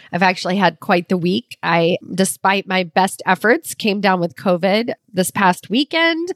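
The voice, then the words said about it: Slightly raspy voice. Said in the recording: “As you might hear in my voice, it sounds a little raspy.”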